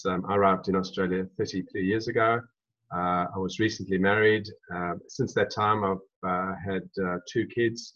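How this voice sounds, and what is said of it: South African accent. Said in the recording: “you probably recognize some South African in my voice”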